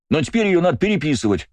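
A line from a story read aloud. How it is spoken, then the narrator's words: Exclaiming. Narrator (Russian): воскликнул Астарот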